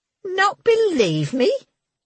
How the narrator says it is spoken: she said, her voice rising

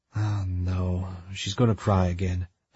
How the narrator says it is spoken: I whispered

